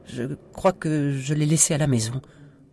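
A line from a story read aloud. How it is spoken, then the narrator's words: Tiny stammering voice. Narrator (French): bredouilla Sophie avec une toute petite voix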